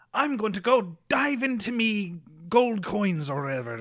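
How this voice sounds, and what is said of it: Bad put-on Scottish accent. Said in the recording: “This is the worst fucking Scottish ... That's the worst Scottish accent I've ever done.”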